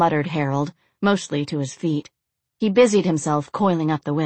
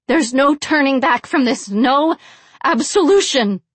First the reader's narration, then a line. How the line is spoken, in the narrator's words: yelled the blonde